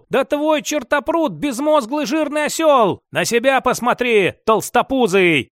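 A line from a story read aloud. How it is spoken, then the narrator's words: Angry shout. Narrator (Russian): Толстячок в сердцах крикнул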